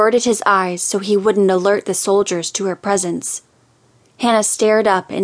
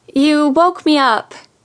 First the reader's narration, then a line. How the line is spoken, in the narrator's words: Hannah groaned